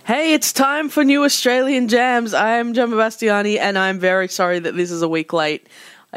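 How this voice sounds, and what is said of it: Sick-sounding voice. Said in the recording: “If you can't tell by my voice, I have been sick”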